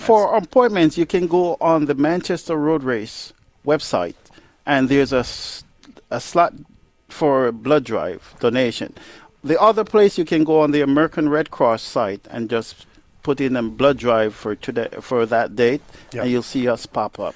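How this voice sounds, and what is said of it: Jamaican accent. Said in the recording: “you didn't pick up the accent? ... Jamaica, man.”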